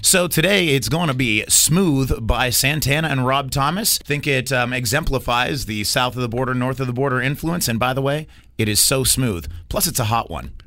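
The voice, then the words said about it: Radio DJ style voice. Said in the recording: “you just went full DJ voice on me”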